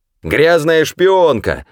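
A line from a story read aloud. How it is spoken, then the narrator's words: Crowd yelling. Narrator (Russian): орали они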